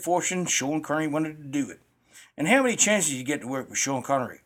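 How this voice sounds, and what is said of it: Put-on southern American accent. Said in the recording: “you're a little off on his accent. You did a southern accent of some type ... That's our Aussie interpretation”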